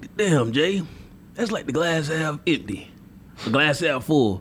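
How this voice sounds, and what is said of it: Impression of Willie Brown. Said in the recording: “let me do my Willie Brown voice... Oh, Willie Brown voice. Yeah. Willie Brown.”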